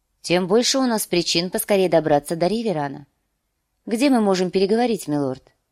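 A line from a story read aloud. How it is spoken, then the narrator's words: Calm reply. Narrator (Russian): спокойно ответила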